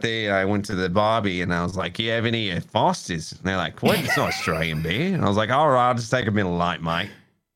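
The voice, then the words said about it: Put-on Australian accent. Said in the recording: “my Australian impression ... you literally sound like the Australian character from The Simpsons”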